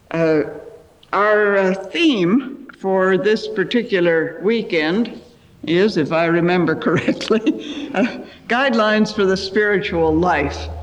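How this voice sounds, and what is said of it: American accent. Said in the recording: “I'm doing my best to sound like an Aussie, but I think it's still very much an American accent”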